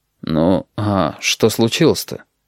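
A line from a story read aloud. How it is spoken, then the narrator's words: Quiet. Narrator (Russian): негромко сказал пассажир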